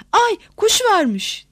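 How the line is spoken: Sudden shout. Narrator (Turkish): diye bağırması bir oldu

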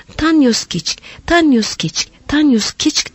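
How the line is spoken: Shouted. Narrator (Turkish): diye bağırdığı duyuldu

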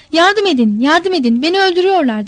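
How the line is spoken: Shouted. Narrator (Turkish): diye bağırdı

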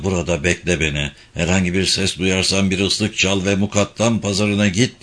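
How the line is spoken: Whispered. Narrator (Turkish): diye fısıldadı

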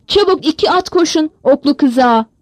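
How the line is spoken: Shouting. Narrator (Turkish): diye haykırdı

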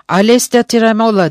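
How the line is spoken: Shouted. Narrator (Turkish): diye bağırdı

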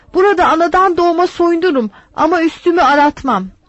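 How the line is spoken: Shouted. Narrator (Turkish): Ben de bağırdım

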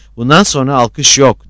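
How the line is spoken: Shouted. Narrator (Turkish): diye bağırdı

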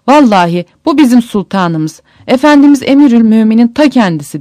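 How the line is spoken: Crying out. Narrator (Turkish): diye haykırmış

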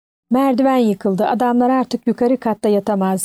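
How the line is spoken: Plain. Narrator (Turkish): dedi

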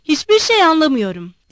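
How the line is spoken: Shouted. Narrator (Turkish): diye bağırdı

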